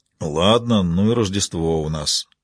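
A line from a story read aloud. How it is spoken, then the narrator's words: Grumbling. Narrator (Russian): проворчал Фрэнки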